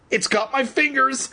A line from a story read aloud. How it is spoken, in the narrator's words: Evan cried shrilly